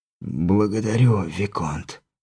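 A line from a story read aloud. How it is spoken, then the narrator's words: Whispered. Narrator (Russian): прошептал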